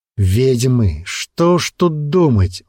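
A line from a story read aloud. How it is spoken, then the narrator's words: Angry male voice. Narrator (Russian): он зло сплюнул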